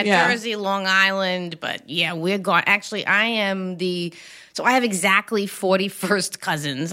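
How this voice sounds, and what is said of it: Strong New York accent. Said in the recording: “the accent is phenomenal... you don't hear a good New York accent as much anymore”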